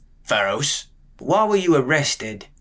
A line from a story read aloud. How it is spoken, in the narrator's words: The man's voice was small and quavering, muffled by the big man's fingers in his mouth